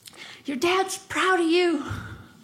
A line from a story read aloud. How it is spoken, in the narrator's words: someone in the back of the audience just shouts